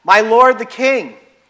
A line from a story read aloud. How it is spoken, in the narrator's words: called out to Saul